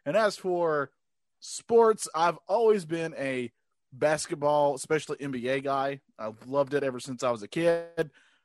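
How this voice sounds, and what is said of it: North Carolina Southern accent. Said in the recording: “Growing up in North Carolina, I don't know if you can tell by my accent.”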